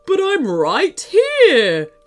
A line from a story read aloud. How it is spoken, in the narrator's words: laughed the voice